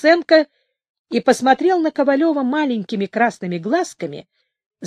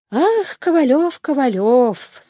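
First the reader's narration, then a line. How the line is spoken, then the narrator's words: Sad voice. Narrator (Russian): сказал Стаценко грустным голосом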